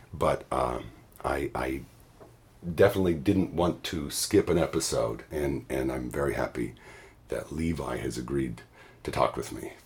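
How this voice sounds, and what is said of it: Hoarse, voice nearly gone. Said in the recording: “I have lost my voice today”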